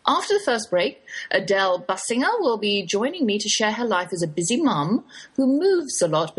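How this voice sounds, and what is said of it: English accent. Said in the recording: “that's my English accent you're hearing ... I can't shake the Oxford drawl”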